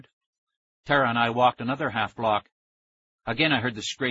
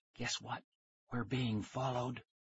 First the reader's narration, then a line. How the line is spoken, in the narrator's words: I whispered